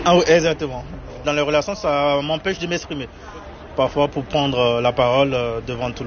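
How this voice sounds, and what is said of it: Beninese French accent, soft R. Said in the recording (French): “Mon accent, c'est... des fois, il y a par exemple les R qui ne sont pas bien prononcés ... Du Bénin, je suis béninois.”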